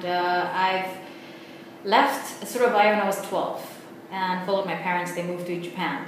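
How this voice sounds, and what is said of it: Mixed accent with New Zealand sound. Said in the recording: “That's the accent, probably the New Zealand accent, right? ... Like mix of everything”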